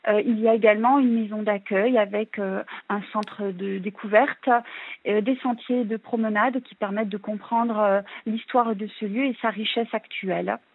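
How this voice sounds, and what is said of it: Local regional French accent. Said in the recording (French): “on l'entend à votre accent, vous êtes de la région”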